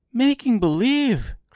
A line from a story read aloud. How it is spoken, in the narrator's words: cried Dorothy